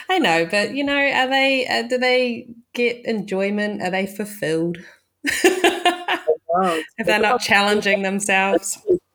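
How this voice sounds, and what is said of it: New Zealand accent. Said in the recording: “I heard your accent ... my home country down in New Zealand”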